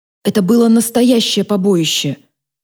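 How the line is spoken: Breathless exhale. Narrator (Russian): выдохнула Фатия

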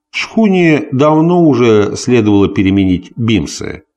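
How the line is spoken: Plain. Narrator (Russian): сказал капитан Глаз

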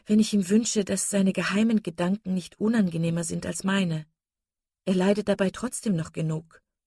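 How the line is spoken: Sighing. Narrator (German): sagte Marian mit einem Seufzer

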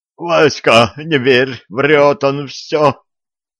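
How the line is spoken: Moaning. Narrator (Russian): простонал оборотень

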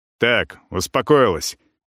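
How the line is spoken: Sharp bark. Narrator (Russian): резко рявкает

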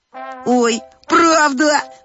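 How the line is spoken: Guffawing. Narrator (Russian): захохотал Владик

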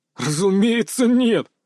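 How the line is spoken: Laughing. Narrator (Russian): рассмеялся Салтыков

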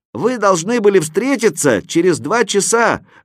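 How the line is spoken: Shouted from above. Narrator (Russian): закричал я сверху

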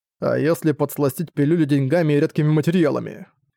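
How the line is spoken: Plain. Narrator (Russian): спросил Зориан

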